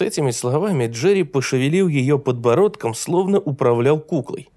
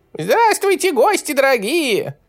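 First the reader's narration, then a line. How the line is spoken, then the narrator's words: Thin squeaky voice. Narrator (Russian): пропищал он тонким голоском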